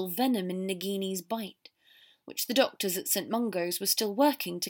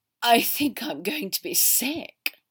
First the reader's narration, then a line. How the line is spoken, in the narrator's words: Draco gasped